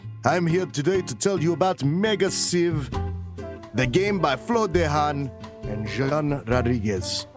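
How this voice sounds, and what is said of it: Inconsistent put-on Russian accent. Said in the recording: “Russian ambassador ... Let me get my accent back in order. It's very hard to do over the microphone, and I feel like I'm speaking kind of Italian ... this accent is all over the place”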